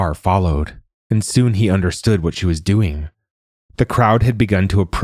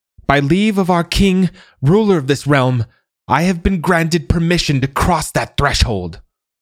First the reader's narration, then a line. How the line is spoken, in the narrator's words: yelling